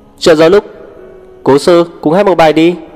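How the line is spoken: Loud shout. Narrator (Vietnamese): hét to

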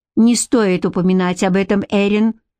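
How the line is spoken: Sharp interruption. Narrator (Russian): резко оборвал Гарик

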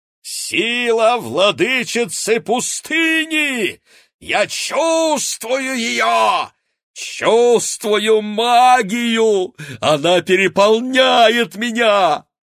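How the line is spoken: Joyful yell. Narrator (Russian): радостно завопила Полина

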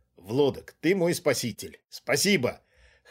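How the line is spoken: Short laugh. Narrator (Russian): хохотнул Глеб

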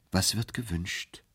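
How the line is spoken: Gentle question. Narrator (German): fragte sanft

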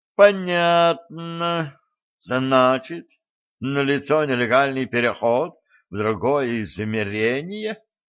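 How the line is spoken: Snorting. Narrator (Russian): хмыкнул Эльгард

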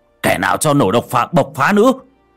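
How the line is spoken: Man shouting. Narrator (Vietnamese): Ông Khôi thấy vậy thì hét lên

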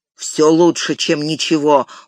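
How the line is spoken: Gruff mutter. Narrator (Russian): буркнул гном

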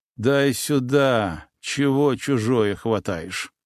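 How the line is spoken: Muffled voice. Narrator (Russian): глухо произнес

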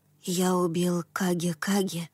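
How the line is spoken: Child's soft quiet voice. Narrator (Russian): проговорил маленький Тацуми мягким, тихим голосом

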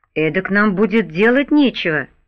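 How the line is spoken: Grumble. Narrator (Russian): проворчал Жорж

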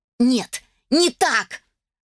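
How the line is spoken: Mother shouting. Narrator (Russian): закричала родительница

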